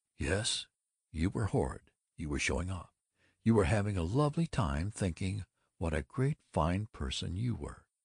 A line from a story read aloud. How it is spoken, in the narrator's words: She said calmly